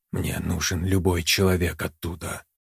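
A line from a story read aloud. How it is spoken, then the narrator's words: Quiet. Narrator (Russian): тихо проговорила Яна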